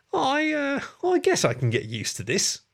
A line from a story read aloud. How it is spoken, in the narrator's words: James said with a chuckle and a nervous smile